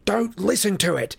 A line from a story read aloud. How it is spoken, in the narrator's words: Harry said harshly